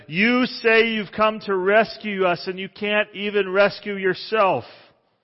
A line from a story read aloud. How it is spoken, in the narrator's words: The crowd shouted